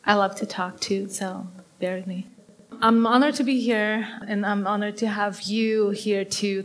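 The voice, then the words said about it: Brazilian Portuguese accent. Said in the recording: “If you hear an accent, you got it. I'm not from here. I was born and raised in Brazil.”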